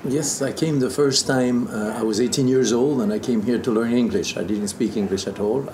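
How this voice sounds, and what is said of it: Great non-native accent, dulcet tone. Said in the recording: “you got dulcet tone, and you got this great accent.”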